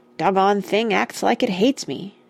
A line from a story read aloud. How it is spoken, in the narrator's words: she heard Rush complain bitterly